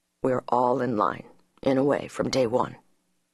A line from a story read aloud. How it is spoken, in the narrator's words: he said very softly